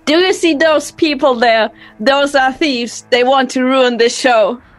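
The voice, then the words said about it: Theatrical performer voice. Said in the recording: “in my most performer voice”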